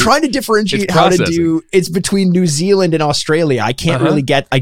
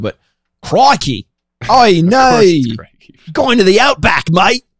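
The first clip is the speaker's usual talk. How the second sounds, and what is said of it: Put-on Australian accent. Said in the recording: “give us your best Australian accent”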